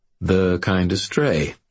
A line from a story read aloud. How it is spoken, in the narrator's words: I said smoothly